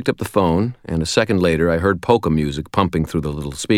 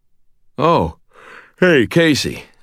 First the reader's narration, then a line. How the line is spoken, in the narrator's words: mumbled